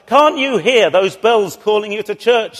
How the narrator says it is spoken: shouted the minister

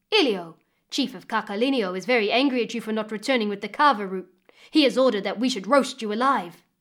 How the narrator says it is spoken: they came and took hold of him roughly, saying

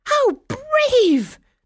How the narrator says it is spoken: the fairies exclaimed, sounding even more delighted

